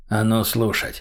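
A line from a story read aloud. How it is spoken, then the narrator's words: Quiet. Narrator (Russian): сказал Мазаев негромко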